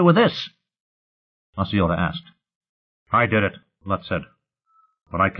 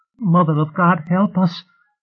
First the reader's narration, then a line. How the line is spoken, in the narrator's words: Nishi pleaded